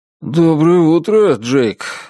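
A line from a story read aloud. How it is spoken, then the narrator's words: Strained, forced out. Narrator (Russian): выдавил Празер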